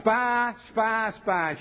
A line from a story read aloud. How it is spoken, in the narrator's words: they cried out